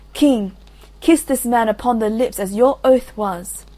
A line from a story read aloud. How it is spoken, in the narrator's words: Iseult cried